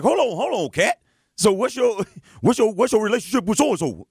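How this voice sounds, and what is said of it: Mocking impression of Shannon's accent. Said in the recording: “Fix your accent, because again, you're making fun of my man.”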